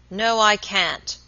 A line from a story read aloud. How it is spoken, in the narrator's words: answered the baker, growing very red in the face, and speaking in an unnecessarily loud voice